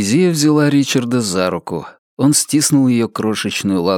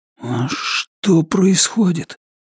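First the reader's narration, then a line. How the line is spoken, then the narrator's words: Barely audible question. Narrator (Russian): спросил Ричард еле слышно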